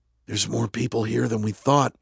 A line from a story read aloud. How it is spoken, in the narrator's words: Justin whispered